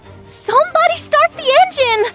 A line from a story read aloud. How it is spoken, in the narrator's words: yelled Jules